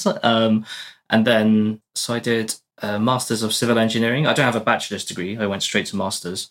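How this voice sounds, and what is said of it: British English accent. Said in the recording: “I studied in the UK for my whole life, as you can probably tell by my accent.”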